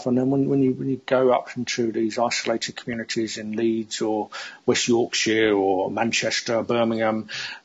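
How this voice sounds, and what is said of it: London accent. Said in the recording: “You can probably hear from my accent. I've lived in London most of my life.”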